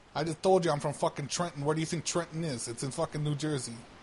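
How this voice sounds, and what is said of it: Heavy New Jersey accent. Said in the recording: “I can't even understand your accent.”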